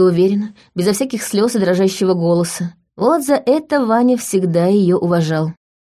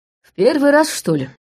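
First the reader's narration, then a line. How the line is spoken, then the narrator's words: Snort. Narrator (Russian): хмыкнул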